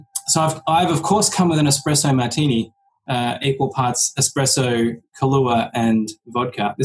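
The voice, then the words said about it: Australian accent, sounds British. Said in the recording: “I come from Melbourne in Australia... I know I sound British to Americans”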